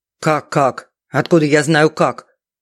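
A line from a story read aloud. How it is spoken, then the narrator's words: Furious snap. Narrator (Russian): Яростно огрызнулся Фридман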